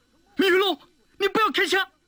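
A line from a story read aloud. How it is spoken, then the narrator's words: Panicked cry. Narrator (Chinese): 马天生的脸色倏然变得像一张白纸，他失声地喊道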